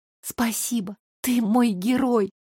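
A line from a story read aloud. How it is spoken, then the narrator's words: Whispering between kisses. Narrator (Russian): шептала я в перерывах между касаниями его губами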